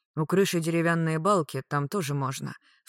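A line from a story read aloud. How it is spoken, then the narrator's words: Sighed. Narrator (Russian): вздохнул лорд Рикошет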